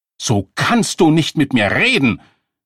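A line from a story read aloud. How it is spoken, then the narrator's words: Screaming. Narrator (German): schrie sie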